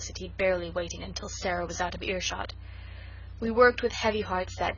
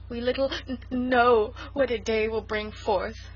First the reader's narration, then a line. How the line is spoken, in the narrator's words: sobbed Sarah